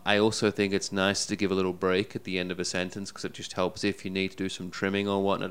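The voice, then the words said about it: British accent. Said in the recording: “Having a... British accent doesn't hurt either, does it? ... It makes you sound eloquent already.”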